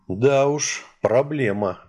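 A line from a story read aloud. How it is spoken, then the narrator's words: Sigh. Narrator (Russian): вздохнул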